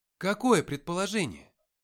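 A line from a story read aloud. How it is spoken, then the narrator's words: Exclamation. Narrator (Russian): воскликнул я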